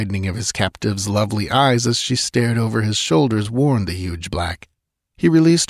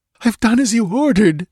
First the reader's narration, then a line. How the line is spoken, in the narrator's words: gasped hysterically